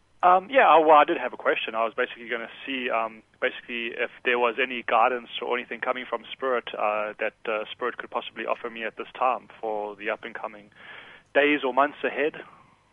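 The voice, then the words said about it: South African accent. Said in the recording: “Are you from England? ... originally from South Africa ... I love your accent.”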